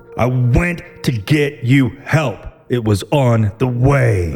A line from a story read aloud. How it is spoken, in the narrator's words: With anger in his voice, he yelled as loud as he could